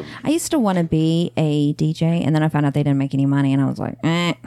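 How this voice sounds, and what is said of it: Usual voice. Nothing is said of it.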